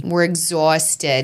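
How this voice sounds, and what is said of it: Put-on Long Island accent. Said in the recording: “Your Long Island accent is getting good.”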